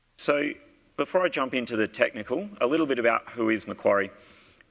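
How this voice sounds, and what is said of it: Australian accent. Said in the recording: “you can probably pick from my accent, I am from Australia”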